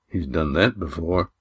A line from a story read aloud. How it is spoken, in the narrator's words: muttered Damon